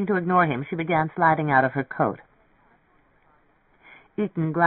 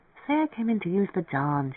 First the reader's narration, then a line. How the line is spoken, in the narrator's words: murmured